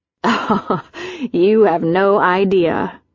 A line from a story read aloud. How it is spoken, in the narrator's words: said with a laugh